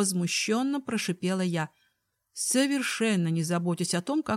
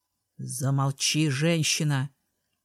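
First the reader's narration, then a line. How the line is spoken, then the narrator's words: Man hissing. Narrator (Russian): прошипел мужчина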